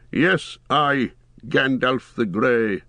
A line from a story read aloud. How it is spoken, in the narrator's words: said the wizard solemnly